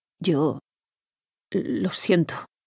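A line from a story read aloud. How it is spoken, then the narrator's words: Stammering. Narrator (Spanish): balbuceó él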